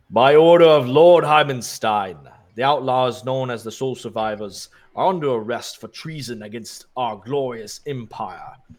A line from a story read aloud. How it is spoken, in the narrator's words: the Minotaur bellows